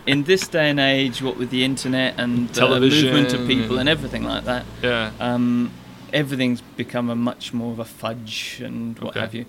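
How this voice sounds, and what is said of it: British accent. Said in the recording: “you don't sound American. But you sound British.”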